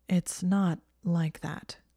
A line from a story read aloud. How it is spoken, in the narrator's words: he said slowly